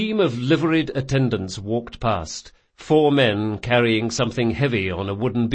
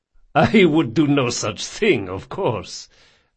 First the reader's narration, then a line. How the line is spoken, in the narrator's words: laughed Don Salvara